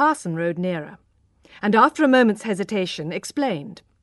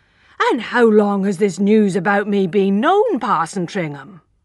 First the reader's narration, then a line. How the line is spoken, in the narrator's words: exclaimed the man